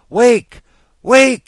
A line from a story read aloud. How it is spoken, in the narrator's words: he wailed